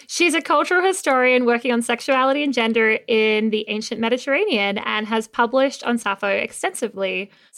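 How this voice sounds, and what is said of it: Australian accent. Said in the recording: “I am Australian. ... The trick is in the accent.”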